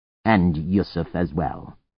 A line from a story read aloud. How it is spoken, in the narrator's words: Zeke said grimly